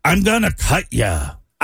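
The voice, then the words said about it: Imitates another person's voice. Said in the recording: “horrible impression ... horrible impersonation”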